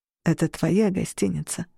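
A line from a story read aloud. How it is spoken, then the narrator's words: Tender. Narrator (Russian): ласково сказал он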